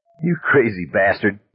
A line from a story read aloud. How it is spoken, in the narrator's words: Don said and burst out laughing